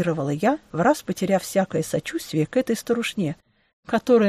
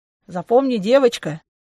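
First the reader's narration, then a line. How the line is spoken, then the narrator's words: Condescending woman's snort. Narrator (Russian): нисходительно хмыкнула владелица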